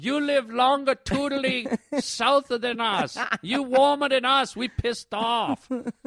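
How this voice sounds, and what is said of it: Put-on foreign accent. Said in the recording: “I like that accent.”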